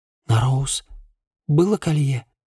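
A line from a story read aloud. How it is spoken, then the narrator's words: Whispered question. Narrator (Russian): прошептала она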